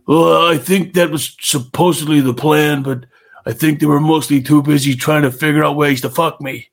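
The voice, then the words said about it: Good Bret Hart impression. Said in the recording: “That's a pretty good impersonation,”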